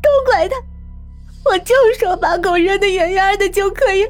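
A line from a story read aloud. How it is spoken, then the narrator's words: Crying woman. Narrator (Chinese): 陈太太哭了起来，说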